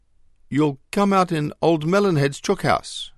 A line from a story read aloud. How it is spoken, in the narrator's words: exclaimed Marco